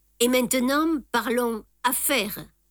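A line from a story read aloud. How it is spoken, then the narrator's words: Plain. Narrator (French): dit Jap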